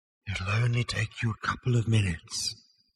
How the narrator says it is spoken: said the voice very faintly

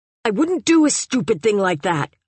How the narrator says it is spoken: I said furiously

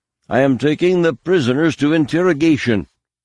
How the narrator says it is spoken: Thrum announced loudly

